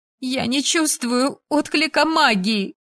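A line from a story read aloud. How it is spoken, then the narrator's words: Sobbing. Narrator (Russian): всхлипнула она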